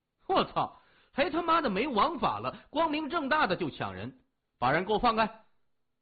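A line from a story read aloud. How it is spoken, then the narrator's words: Young man, loud. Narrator (Chinese): 一个高个青年大声说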